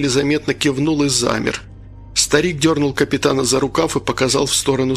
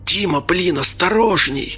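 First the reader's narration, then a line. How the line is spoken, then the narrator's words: Hiss. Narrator (Russian): прошипел Анатолий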